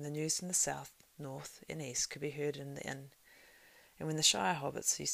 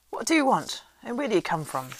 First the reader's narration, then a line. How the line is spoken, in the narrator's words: he asked gruffly